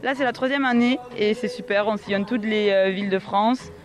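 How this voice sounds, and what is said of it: Slight southwestern French regional accent. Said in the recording (French): “vous avez un petit accent quand même, mais c'est pas tout à fait celui de la Bigorre ... je viens du Gers”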